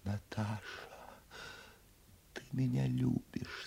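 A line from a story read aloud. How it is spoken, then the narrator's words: Tender, trusting whisper. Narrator (Russian): сказала она нежным, доверчивым шепотом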